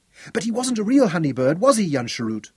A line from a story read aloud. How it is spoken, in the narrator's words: Geordie cried excitedly